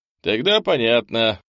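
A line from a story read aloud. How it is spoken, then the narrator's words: Snorting. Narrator (Russian): хмыкнул Андрей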